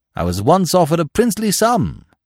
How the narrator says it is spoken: went on Smith, now floating happily along on the tide of his native exuberance

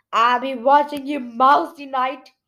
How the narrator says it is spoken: he growled

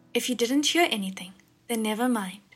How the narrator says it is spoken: Shirlian said

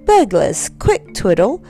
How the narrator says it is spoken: said sharply

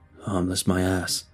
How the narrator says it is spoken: he grumbled

